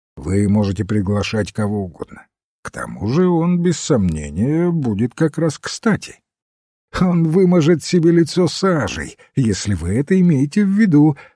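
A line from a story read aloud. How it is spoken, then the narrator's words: Laughing exclamation. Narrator (Russian): смеясь воскликнул Блаунт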